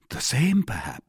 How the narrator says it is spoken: said he

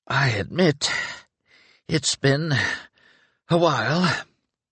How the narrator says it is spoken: As he gained each few feet, he wheezed

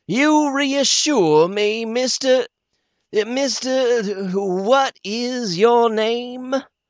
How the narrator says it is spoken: very cool and ceremonious, says, mocking of him

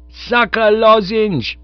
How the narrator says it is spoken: shouted

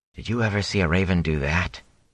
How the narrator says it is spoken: he asked quietly

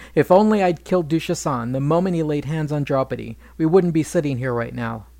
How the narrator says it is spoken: Bhima grumbled

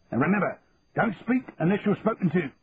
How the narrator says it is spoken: he added sharply

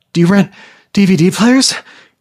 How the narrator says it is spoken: gasped, out of breath

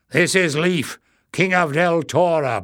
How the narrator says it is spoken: Barda growled

